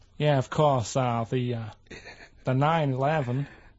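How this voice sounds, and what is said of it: Put-on American accent. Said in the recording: “Do that American accent again? ... Which part of America is that?”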